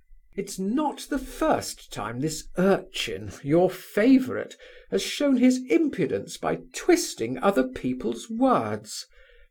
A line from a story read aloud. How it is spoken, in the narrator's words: said Aglaya haughtily